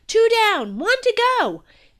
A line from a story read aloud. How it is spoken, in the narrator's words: I cheered and yelled